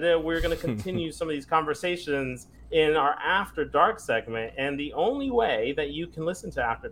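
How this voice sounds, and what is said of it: Usual voice. Nothing is said of it.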